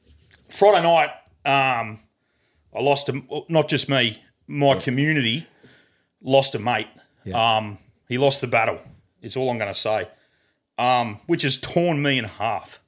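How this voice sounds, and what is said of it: Flat, subdued voice. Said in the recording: “you can probably tell in my voice I'm a little bit flat”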